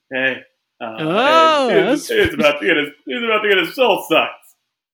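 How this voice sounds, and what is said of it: Imitates another person's voice. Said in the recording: “Okay, it's pretty good. Okay. I felt like I was here with Kronk himself. ... my one kind of impression.”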